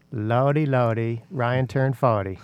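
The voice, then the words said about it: Put-on South Carolina accent. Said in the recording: “my best attempt at a South Carolina accent.”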